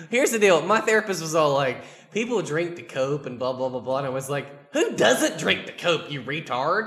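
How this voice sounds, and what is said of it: Southern accent growing stronger. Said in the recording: “You're getting that southern accent. Like, as you drink more, I think you get more of a southern accent.”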